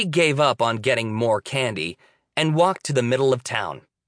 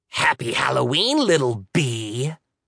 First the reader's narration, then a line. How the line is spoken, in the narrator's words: the devil woman growled